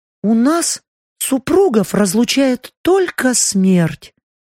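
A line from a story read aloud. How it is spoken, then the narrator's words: Countess, sad statement. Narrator (Russian): печально констатировала графиня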